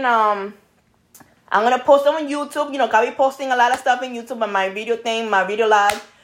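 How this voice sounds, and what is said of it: Speaks English with a noticeable accent. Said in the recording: “In my accent, people. My accent. ... blame it on the accent.”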